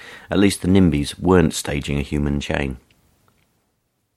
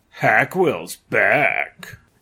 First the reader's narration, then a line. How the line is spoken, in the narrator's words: in a horror film accent